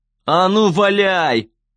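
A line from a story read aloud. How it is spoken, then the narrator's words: Booming. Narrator (Russian): прогремел Гейб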